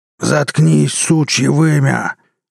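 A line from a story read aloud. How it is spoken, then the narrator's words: Furious roar. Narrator (Russian): взревел побагровевший Брас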